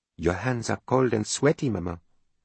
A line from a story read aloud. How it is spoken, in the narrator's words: she whispered in French